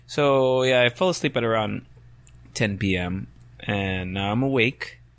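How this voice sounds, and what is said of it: Raspy just-woke-up voice. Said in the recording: “Sorry for the raspy voice, guys. I have that sexy just woke up voice”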